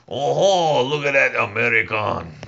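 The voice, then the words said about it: Bad put-on Montreal accent. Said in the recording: “That's the worst Montreal accent”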